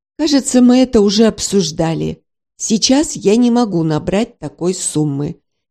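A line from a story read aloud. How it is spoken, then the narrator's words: Icy reply. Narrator (Russian): ледяным тоном ответил Гарулин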